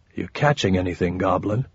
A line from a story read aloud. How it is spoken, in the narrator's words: Softly, asked